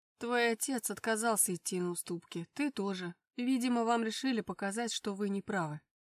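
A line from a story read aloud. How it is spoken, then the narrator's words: Grim reply. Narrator (Russian): мрачно ответил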